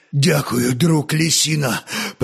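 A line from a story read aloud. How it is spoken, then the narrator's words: Hoarse wheeze. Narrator (Russian): прохрипел веряга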